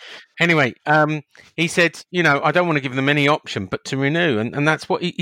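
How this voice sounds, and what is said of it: Usual voice. Nothing is said of it.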